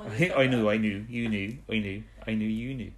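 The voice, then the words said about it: Speaks in a different accent. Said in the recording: “It sounds like you're speaking a different accent now.”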